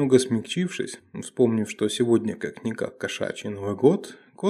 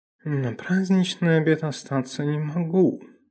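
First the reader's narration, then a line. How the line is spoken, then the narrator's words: Purring. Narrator (Russian): промурлыкал таксон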